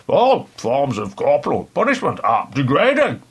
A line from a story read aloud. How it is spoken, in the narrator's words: exclaimed Michael Foote